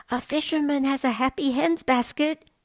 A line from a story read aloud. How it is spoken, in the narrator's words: he shouted